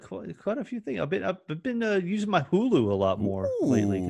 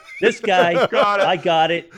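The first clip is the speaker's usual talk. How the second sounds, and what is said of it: Imitates a stand-up comedian's voice. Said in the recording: “perfect Bill Burr impersonation”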